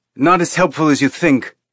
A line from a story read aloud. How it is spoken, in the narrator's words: Naomi snapped